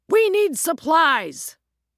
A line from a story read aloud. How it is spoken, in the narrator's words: shouted